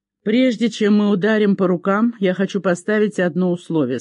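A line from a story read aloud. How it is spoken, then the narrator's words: Plain. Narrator (Russian): сказал он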